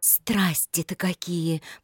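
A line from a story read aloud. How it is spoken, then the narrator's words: Agitated whisper. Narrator (Russian): прошептала она, где часто-часто колотилось сердце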